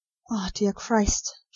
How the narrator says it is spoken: she whispered

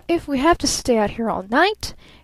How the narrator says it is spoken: he repeated wildly

